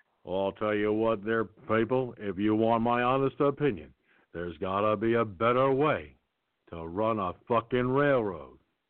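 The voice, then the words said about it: John Wayne impression. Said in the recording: “my John Wayne impression ... That's a damn good John Wayne. That's a solid John Wayne.”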